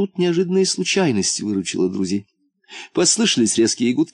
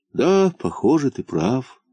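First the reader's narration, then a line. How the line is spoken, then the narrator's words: Sigh. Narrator (Russian): вздохнул муфта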